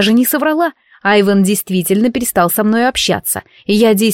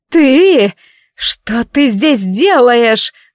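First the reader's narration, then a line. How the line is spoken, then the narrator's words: Wailed. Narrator (Russian): взвыла Катрин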